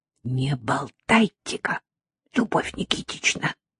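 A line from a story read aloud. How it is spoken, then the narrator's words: Clipped whisper. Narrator (Russian): отчеканила шепотом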